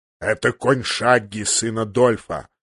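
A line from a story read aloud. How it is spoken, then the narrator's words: Growl. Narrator (Russian): рыкнул он на мальчишку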